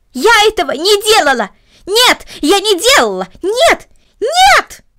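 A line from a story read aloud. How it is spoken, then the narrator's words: Loud scream. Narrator (Russian): громко закричала Карнели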